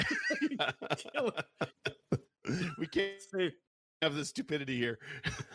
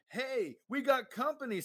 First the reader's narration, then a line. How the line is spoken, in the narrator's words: Spirit yells